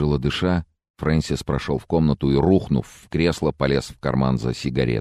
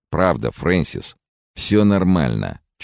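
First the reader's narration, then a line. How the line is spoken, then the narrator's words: Slightly irritated. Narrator (Russian): чуть раздраженно добавил Генри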